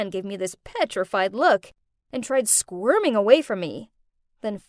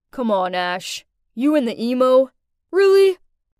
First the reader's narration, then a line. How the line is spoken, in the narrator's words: Gwen snorted